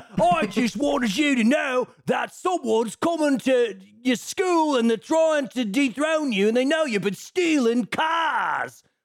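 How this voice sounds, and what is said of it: Exaggerated British accent. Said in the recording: “British accent, I'm not like, oh, he's got like a little, like, ooh, he's a South London boy. No. This is like, oi there, governor.”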